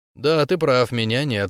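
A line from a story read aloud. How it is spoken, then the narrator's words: Completely calm reply. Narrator (Russian): ответил Искин совершенно спокойно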